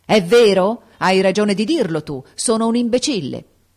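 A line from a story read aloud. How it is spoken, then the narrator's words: Shouted. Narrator (Italian): gridò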